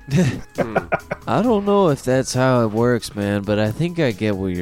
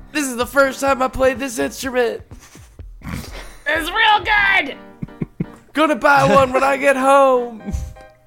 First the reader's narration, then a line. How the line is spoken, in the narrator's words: Teddy screams out